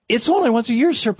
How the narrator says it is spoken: pleaded Bob

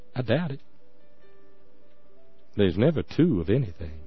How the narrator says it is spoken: my friend gently reflects

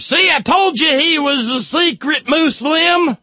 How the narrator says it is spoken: all the right wingers would scream

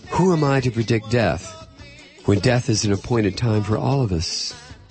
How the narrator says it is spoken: Newman cried and nearly whispered to the jury

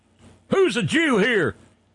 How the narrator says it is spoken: these people hollered

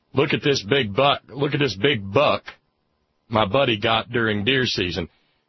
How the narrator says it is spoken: this guy's chuckling, and he says

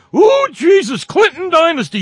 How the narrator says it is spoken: crowds hollering

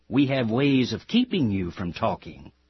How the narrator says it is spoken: the director of our national security agency hisses at journalists

